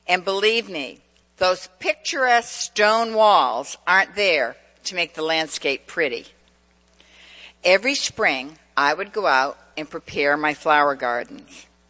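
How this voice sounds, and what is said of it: New England accent. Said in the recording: “As many of you can tell by my accent, I spent much of my life in New England, central Massachusetts.”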